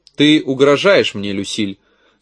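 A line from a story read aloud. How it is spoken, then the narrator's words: Calm question. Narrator (Russian): спросил я спокойно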